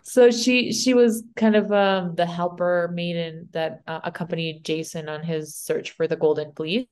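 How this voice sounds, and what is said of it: Spanish accent in English. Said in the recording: “My Spanish accent.”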